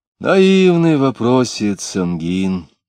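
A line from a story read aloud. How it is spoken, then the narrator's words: Coaxing tone. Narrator (Russian): сказал уговаривающим тоном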